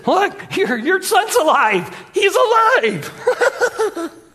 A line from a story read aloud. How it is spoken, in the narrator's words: the maniacal, almost nervous laughter as he says